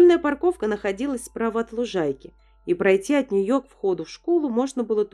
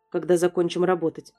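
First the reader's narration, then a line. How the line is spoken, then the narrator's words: Curt, dry. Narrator (Russian): Сухо отрезал Джерри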